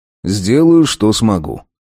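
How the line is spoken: Sighing. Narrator (Russian): Я вздохнул и сказал

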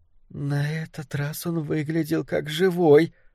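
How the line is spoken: Hoarse wheeze. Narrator (Russian): просипела она

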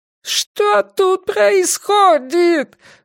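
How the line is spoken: Wailing yell. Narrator (Russian): вопил Делакруа

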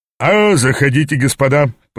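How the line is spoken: Booming, good-natured. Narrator (Russian): прогремел он добродушным тоном

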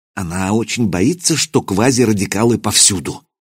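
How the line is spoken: Muttering. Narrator (Russian): пробормотал академик

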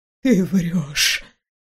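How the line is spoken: Whispered. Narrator (Russian): прошептала она

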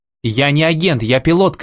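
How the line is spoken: Shout. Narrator (Russian): крикнул Моррисон

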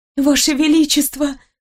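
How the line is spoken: Timid babble. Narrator (Russian): пролепетала я

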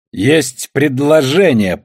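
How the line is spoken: Deafening shout over loudspeaker. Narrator (Russian): прокричала она, выкрутив громкоговоритель на такую мощность, что если кто-то был в помещении склада, ему грозила неизлечимая глухота

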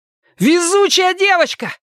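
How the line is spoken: Yelling. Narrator (Russian): заорал он

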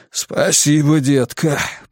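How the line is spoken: Hoarse rasp. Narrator (Russian): прохрипел он

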